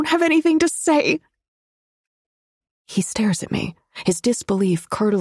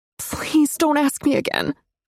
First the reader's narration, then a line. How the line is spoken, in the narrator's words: I whimper